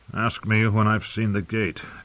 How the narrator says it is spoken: John said grimly

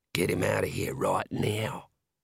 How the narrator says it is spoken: hissed comments of

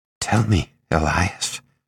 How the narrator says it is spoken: Herb said quietly

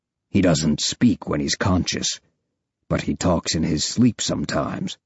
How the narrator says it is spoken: Deltok says

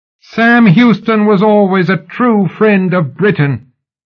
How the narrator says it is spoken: Sybil shrieked into the crowd's upturned faces

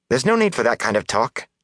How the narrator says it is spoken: Nynaeve said sharply

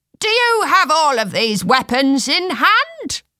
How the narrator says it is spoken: someone shouted

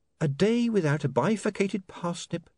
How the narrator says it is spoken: said Saccharissa sweetly

